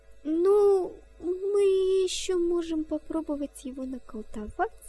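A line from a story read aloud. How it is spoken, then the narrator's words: Uncertain suggestion. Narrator (Russian): неуверенно предложила она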